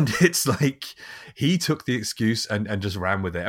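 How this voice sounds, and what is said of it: Usual voice. Nothing is said of it.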